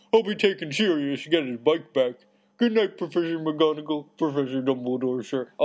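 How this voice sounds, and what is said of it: Muffled, accented character voice. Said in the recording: “in a very muffled voice ... Oh, I like that accent. That's a good one.”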